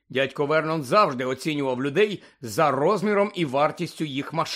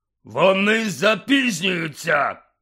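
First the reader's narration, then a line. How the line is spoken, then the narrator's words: Angry bark. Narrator (Ukrainian): гаркнув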